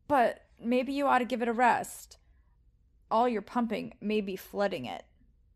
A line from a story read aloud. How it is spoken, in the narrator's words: Rick stammered